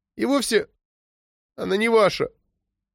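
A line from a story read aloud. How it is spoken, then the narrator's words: Tearful girl's mumble. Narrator (Russian): Сквозь слезы пробормотала девочка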